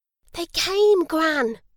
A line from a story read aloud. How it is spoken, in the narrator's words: whispered Julia delightedly